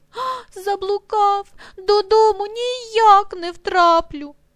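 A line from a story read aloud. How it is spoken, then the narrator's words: Sobbing reply. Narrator (Ukrainian): той, схлипуючи, відповідає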